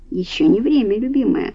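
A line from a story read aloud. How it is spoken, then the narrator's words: Whispered. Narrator (Russian): шепнул граф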